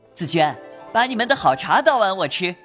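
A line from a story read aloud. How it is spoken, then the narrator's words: Laughing. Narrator (Chinese): 宝玉笑道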